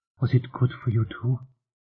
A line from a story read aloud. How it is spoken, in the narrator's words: Nishi whispered